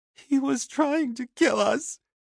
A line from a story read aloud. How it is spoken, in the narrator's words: she sobbed